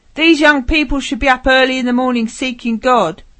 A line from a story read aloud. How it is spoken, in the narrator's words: Suddenly a man shouting